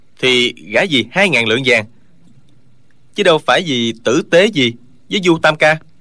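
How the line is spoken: Cold wry laugh. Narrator (Vietnamese): Trương Thúy Sơn cười nhạt

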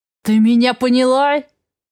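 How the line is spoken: Growling. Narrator (Russian): Прорычал

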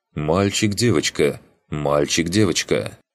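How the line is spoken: Stern mother. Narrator (Russian): мама строго произнесла

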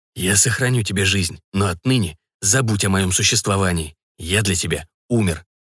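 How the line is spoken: Whispered. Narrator (Russian): прошептал

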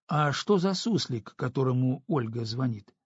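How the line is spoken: Plain. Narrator (Russian): спросила она

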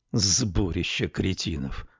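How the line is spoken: Grumbled. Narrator (Russian): проворчал канадец

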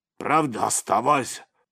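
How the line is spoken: Deep bass voice. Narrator (Russian): пробасил Абрек

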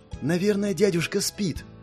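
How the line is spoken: Whisper. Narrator (Russian): шепнула Маэна

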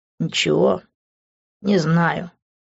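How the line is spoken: Sighing. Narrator (Russian): вздохнул я

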